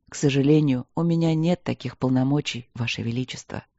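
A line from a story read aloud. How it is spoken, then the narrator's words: Soft, gentle. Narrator (Russian): сказал мягко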